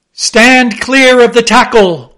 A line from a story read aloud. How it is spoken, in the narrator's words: cried a voice like the bursting of a rocket